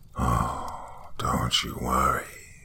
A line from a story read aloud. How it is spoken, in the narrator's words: he said with a dry, raspy voice